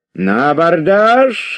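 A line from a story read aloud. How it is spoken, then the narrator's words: Drunken shout. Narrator (Russian): закричал пьяный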